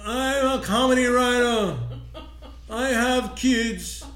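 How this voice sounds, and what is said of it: Imitates another person's voice. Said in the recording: “I have a Mike Rowe impression ... it's exactly like Mike Rowe. It's identical.”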